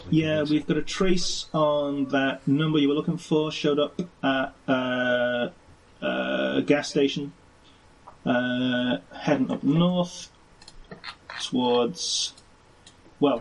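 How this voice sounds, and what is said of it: Put-on American accent. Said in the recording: “I have a genuine, authentic American accent.”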